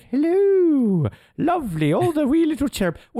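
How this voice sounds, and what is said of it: Old Scottish-sounding woman voice. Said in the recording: “Puts on the Mrs. Doubtfire voice ... this is meant to be English, but I swear this is a Scottish accent”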